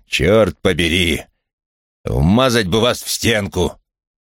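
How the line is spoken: Through clenched teeth. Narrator (Russian): процедил сквозь зубы Крэмер

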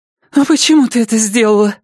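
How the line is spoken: Exclamation. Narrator (Russian): воскликнула Мэтти

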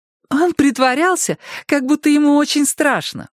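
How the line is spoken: Laughing. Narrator (Russian): смеялась Карен

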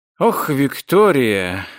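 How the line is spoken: Reproachful mutter. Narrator (Russian): укоризненно пробормотал он

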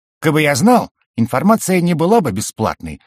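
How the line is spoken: Irritated answer. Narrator (Russian): раздраженно ответил Аароо

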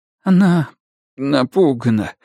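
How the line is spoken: Trembling voice. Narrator (Russian): дрожащим голосом ответил Даниэль

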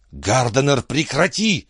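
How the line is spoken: Hissed. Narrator (Russian): прошипела Маккардл

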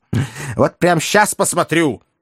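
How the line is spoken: Snapping retort. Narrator (Russian): огрызнулась бывшая военнослужащая

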